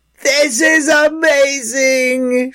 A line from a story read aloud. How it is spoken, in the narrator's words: she shouted